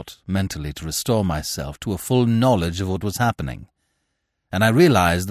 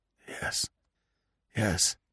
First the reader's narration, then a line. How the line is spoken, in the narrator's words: came hoarsely